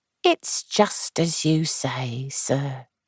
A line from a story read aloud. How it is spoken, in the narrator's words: she said at last in her quiet, subdued voice